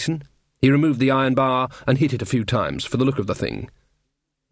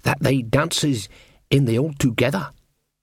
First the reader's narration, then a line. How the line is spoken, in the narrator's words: said Jason, lowering his voice